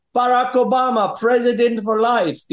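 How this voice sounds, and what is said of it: Put-on Ugandan accent. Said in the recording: “it's probably best to say it in, in the Ugandan accent”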